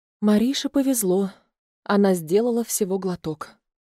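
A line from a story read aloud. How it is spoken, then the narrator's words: Sigh. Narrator (Russian): вздохнула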